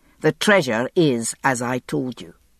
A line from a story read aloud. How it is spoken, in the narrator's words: he said firmly